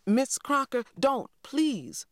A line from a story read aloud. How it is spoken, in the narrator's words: I cried